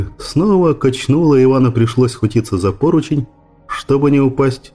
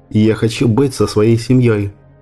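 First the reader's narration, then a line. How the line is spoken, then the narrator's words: Plain. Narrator (Russian): ответил Иван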